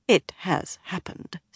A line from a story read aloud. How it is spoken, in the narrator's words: Sianna said stiffly